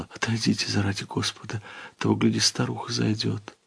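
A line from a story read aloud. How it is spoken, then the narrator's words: Frightened whisper. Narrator (Russian): Она с испугом … вся покраснев, прошептала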